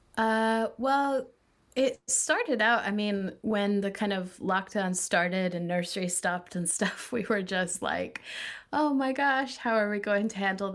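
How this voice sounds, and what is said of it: Neutral mixed Scottish-American accent. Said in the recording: “spoke in a Glaswegian accent at school and an American accent at home ... It's very, very neutral ... it's now all just sort of evening out into one weird mid-accent”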